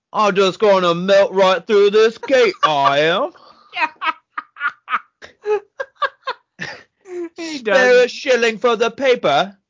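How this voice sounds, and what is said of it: Put-on cockney accent. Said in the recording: “a cockney vampire”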